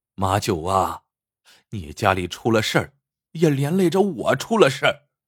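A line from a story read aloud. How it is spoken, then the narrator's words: Sorrowful long sigh. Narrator (Chinese): 石头一见马九，一下牵动了肚里的愁肠，长叹一口气，说道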